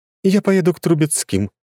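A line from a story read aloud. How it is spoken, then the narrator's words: Abrupt. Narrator (Russian): резко сменила она тему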